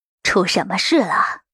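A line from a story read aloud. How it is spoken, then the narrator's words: Hesitant low voice. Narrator (Chinese): 郑管事犹豫了下 低声说道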